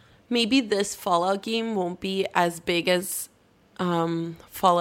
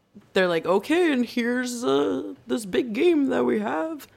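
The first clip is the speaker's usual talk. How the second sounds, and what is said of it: Imitates another person's voice. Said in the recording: “good Todd Howard impression”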